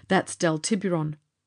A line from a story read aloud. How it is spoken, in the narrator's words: Charlie said